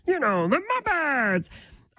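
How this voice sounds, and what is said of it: Kermit the Frog voice. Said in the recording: “my impersonation of Kermit the Frog”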